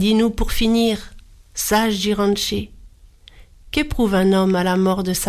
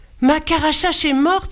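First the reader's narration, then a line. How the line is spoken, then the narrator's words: Exclaimed in sudden realization. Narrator (French): s'écria Jiranché, comprenant tout à coup pourquoi il lui avait posé toutes ces questions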